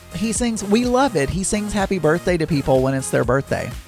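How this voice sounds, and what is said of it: Southern American accent. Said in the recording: “my accent probably sounds very Southern ... I can only assume that I do have a Southern accent”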